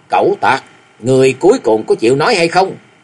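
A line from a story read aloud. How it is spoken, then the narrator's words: Cold loud shout. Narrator (Vietnamese): Tư Đồ Văn lạnh lùng quát lớn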